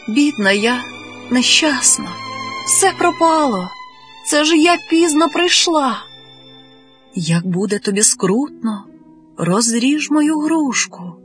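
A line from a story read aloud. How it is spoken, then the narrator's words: Whisper in the ear. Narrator (Ukrainian): почула раптом Барушка, наче хтось прошепотів їй на вухо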